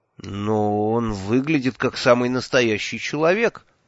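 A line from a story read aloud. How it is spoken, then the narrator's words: Confused mumble. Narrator (Russian): растерянно промямлил я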